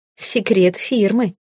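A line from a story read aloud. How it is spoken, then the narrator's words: Laughing. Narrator (Russian): рассмеялась я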